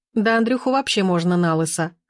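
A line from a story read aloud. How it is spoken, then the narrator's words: Chuckle. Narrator (Russian): хохотнула Лина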